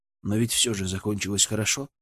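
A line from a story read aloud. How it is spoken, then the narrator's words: Flat, matter-of-fact tone. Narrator (Russian): сказал я ровным, констатирующим тоном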